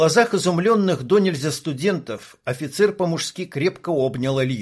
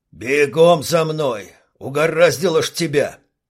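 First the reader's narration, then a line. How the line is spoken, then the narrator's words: Barked. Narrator (Russian): Рявкнул Липатов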